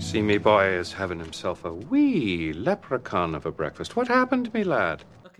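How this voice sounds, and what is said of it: Exaggerated put-on accent. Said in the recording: “we need to talk about this accent”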